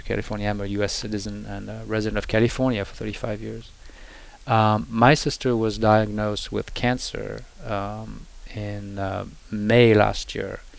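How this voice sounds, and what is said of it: French accent. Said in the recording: “she lives in Paris, France. That's where I'm from. You might hear my accent,”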